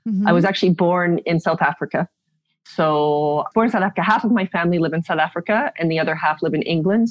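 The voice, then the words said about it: Canadian accent. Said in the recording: “So my accent's Canadian.”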